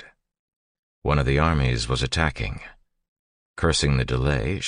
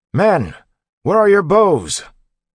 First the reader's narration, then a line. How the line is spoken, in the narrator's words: His voice, however, was lost in the shouting